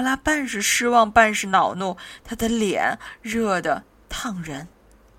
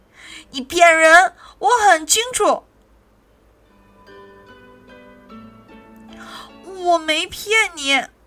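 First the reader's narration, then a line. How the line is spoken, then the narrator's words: Shouting. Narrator (Chinese): 苏菲喊起来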